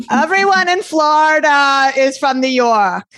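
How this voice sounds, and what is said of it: Strong New York accent. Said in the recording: “this very strong New York accent, which mm-hmm. I can do very well.”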